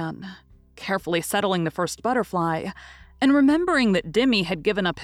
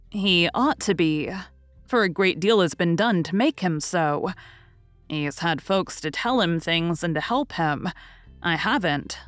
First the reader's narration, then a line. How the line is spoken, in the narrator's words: said, with a sigh, feeling as if he had not had fair play somehow